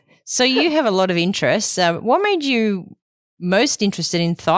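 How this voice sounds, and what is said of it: Usual voice. Nothing is said of it.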